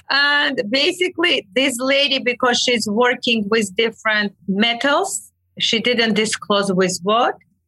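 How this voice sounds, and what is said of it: Non-native English accent. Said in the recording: “My accent kills me. ... a funny story about my accent”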